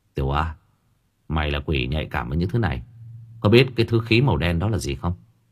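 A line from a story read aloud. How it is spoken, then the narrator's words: Whispering. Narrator (Vietnamese): Tâm Trúc thì thầm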